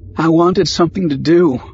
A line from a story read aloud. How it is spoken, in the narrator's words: said, voice faltering